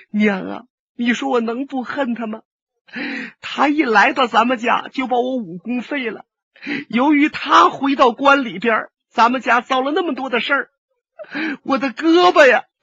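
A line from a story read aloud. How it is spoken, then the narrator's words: Loud wailing. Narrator (Chinese): 龙小云放声大哭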